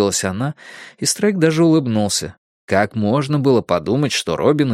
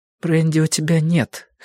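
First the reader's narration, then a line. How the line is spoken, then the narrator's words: Slightly hoarse remark. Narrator (Russian): хрипловато заметила Робин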